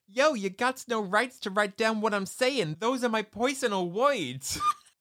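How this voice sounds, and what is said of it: Put-on New York accent. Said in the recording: “got to get in character for this ... It's like a New York thing, right? ... the New York accent”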